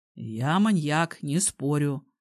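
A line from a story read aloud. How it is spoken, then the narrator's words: Young man snorting. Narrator (Russian): хмыкнул молодой человек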